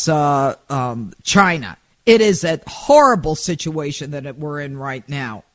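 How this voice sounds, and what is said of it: Furious, angry voice. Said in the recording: “You can hear it in my voice. I am furious.”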